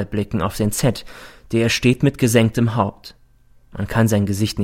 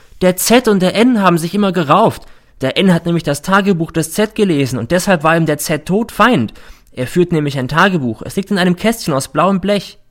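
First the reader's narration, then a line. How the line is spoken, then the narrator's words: Sudden shout. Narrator (German): schreit plötzlich der R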